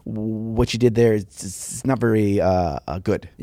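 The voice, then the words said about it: Impression of Ben Cantor. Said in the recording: “this is my Ben Cantor impression”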